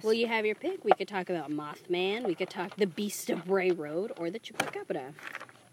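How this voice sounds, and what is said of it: Congested, stuffed-up nasal voice. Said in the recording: “My voice sounds off today because... Stuffed up my nose.”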